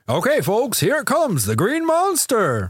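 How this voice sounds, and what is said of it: Announcer voice. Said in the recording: “a really good announcer voice”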